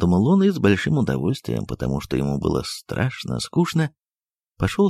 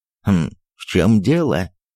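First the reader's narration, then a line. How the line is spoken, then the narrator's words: Angry question. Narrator (Russian): спросил он сердито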